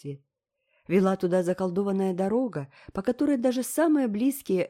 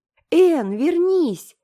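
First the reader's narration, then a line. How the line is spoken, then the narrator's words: Shrill scream. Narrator (Russian): пронзительно закричала, как только к ней вернулся дар речи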